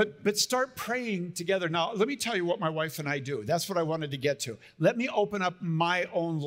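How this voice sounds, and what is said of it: Usual voice. Nothing is said of it.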